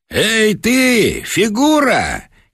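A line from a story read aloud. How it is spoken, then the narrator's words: Shouting portly gentleman. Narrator (Russian): крикнул толстый белотелый господин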